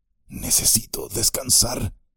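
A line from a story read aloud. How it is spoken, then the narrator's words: Murmuring. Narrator (Spanish): murmuró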